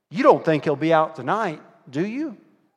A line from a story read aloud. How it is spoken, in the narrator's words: Sam asked